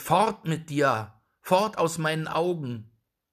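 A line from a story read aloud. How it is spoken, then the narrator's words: Called out. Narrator (German): rief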